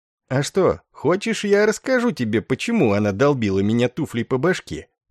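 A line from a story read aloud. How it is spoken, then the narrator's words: Lewd giggling question. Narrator (Russian): похотливо хихикнув, осведомился Ор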